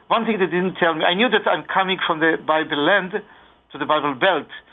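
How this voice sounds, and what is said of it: Strong Israeli accent. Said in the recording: “you've not developed too much of a Georgia accent yet ... I have my Israeli strong accent”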